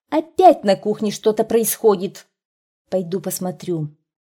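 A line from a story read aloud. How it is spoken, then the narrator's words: Loud, from another room. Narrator (Russian): мама в комнате громко сказала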